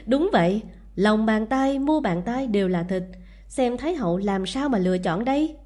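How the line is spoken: Cheerful, laughing. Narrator (Vietnamese): Lưu Hoài lập tức hớn hở, cười nói

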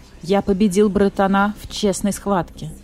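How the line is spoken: Calm. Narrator (Russian): спокойно сказал царь зверей

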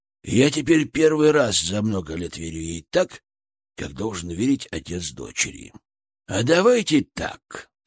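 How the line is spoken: Businesslike tone. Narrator (Russian): сказал он уже деловым тоном

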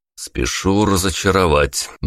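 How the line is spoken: Gloomy reply. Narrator (Russian): мрачно ответил я

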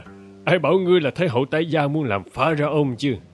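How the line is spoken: Laughing. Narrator (Vietnamese): Smenke bật cười

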